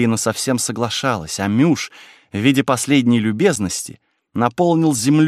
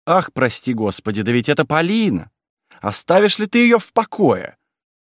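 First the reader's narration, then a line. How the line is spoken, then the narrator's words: Loud dismayed gasping. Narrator (Russian): Старая дева громко ахая над плачевным видом ее наряда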